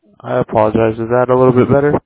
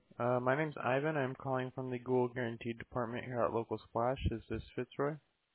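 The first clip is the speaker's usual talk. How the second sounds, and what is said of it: Very quiet, low-volume voice. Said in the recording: “Your voice is a little low, though. Very low.”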